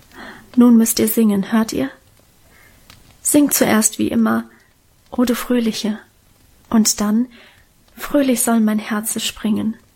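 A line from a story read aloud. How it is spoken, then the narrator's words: Whisper. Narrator (German): flüsterte sie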